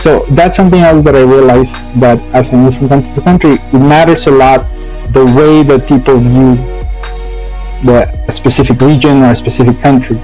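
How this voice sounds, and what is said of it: Speaker with a particular accent. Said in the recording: “I have an accent, but I have a particular accent”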